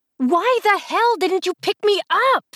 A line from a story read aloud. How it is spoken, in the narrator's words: I screamed